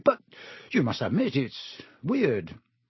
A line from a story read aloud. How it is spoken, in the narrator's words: said Ron quickly